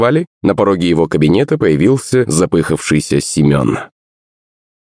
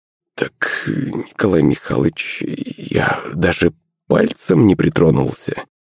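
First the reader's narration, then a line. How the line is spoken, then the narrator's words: Embarrassed mumble. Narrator (Russian): пробормотал густо краснея его помощник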